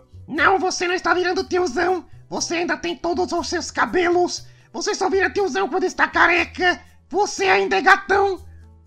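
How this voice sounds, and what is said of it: Imitating a female friend's voice. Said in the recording (Portuguese): “te fazer a voz dela certo, porque depois ela escuta esse podcast e fala, você fez minha voz errada! Então, deixa eu fazer a voz dela certa”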